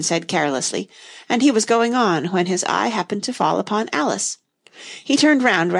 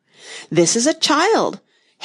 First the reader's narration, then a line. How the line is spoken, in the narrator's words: Haya replied eagerly